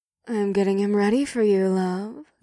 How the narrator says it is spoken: Ada said in a sultry tone

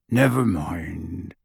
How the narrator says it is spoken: he said gruffly

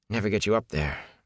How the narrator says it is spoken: Matt muttered

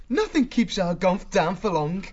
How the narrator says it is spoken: Martin laughed

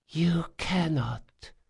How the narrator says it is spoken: she sighed

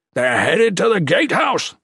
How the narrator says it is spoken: General Harban screamed

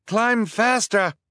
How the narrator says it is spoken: Duncan screamed down

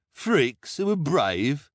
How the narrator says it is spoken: the hook-handed man sneered

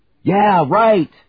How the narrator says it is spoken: they yelled, loving the idea of getting the drop on the arrogant Imperial Navy

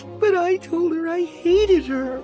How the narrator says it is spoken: Shiri sobbed

